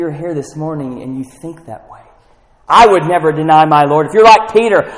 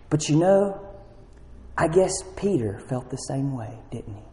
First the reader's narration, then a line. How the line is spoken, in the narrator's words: he said in a very calm voice